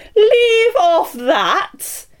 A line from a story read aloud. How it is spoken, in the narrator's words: screamed the Queen